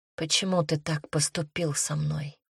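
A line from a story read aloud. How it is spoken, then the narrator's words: Whispered. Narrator (Russian): прошептала я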